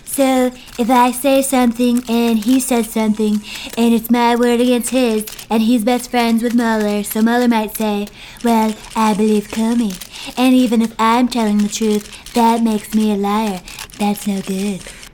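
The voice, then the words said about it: Woman doing a Trump impression. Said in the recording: “our Trump impersonator is a woman”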